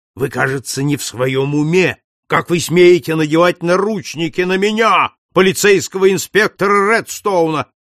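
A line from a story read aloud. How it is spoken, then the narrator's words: Shouted. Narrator (Russian): закричал он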